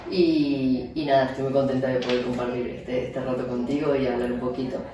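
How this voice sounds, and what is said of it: Argentine Spanish accent. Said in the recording (Spanish): “verán mi acento ahí sale... y, por, por, lo alto. Nada, soy argentina”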